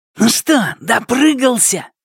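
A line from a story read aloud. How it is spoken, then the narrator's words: Spiteful snap. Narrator (Russian): злобно бросил Хану Шунь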